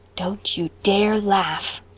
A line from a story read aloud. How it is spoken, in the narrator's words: warned Anne in a whisper